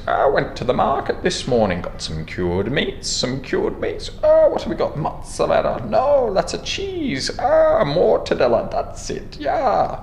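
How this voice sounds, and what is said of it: Terrible impression, Gollum-like Scottish tinge. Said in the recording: “Sounded like Gollum. Gollum, maybe with some kind of Scottish tinge ... I'm doing a terrible impersonation.”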